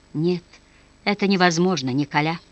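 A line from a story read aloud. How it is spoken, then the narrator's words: Mumbling. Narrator (Russian): наконец пробормотала она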